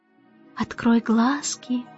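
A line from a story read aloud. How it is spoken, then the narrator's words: Soft, gentle. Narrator (Russian): мягко сказал он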